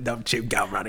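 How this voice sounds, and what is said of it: Put-on Cockney accent. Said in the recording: “they all talk like with the Cockney accent”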